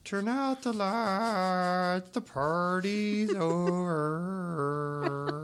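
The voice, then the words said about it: Sung impression, slightly drunk voice. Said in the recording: “that your impression of me doing an impression ... Slightly drunk”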